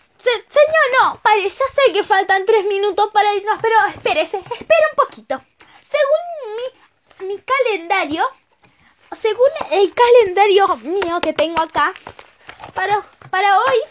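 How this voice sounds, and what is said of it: Puts on a character voice. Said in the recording (Spanish): “Vamos a poner la voz así.”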